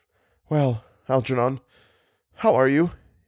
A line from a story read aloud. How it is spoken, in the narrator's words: murmured